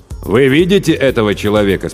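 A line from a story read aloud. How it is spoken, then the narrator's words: Plain. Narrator (Russian): спросил главарь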